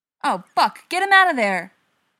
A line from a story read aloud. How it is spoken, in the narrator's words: Tony yelled